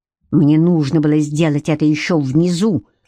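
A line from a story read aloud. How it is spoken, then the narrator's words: Growling. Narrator (Russian): зарычал он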